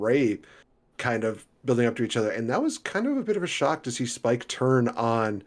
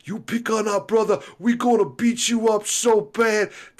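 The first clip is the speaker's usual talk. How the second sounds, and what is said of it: New York tough-guy accent. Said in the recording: “I can't really do a full-on Bully Ray accent... that was good. That was great... I felt like I was going a little bit into Taz there... It made me want a New York deep dish”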